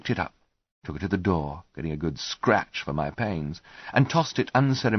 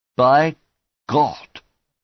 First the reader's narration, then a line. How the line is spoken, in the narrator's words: he said, in a nasal, clogged voice